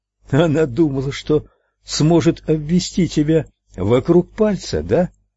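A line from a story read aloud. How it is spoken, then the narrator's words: Plain. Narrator (Russian): спросил Ральф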